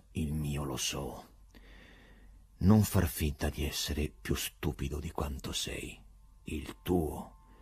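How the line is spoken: Quiet, subdued voice. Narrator (Italian): Il procuratore disse con voce sommessa

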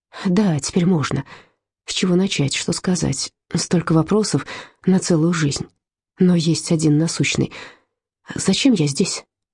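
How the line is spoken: Plain. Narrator (Russian): спросил он

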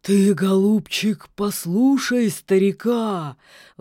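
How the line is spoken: Sudden hoarse old voice. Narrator (Russian): вдруг прохрипел болотник

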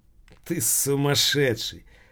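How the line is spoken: Laughing. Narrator (Russian): Азин рассмеялся

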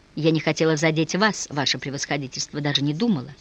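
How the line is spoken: Miserable muttering. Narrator (Russian): забормотала молодая женщина, чувствуя себя глубоко несчастной

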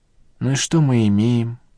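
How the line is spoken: Sad question. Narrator (Russian): грустно спросила Надежда Николаевна

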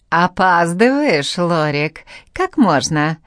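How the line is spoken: Declaring, deep guttural laugh. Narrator (Russian): заявила та и утробно захохотала

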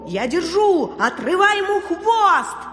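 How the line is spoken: Shouting. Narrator (Russian): Один котовед закричал

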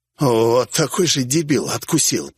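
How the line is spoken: Hoarse wheeze. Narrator (Russian): прохрипел я

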